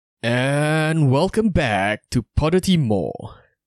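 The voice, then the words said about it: American announcer style, weak accent. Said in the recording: “I sound like some American announcer... don't have the accent down... But the style.”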